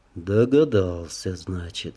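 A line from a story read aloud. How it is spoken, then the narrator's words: Calm, matter-of-fact. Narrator (Russian): спокойно, словно констатируя факт, произнес он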